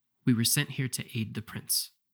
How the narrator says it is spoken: Mitsu said quietly

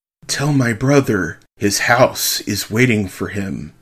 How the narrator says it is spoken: Mary whispered

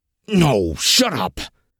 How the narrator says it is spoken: Vel growled

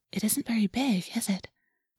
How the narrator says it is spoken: Rachel whispered

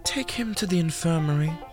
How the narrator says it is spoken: Miss Shelley sighed

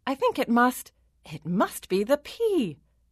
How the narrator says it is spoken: the queen exclaimed

